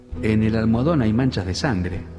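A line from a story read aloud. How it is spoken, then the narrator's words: Called softly. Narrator (Spanish): llamó a Jordán en voz baja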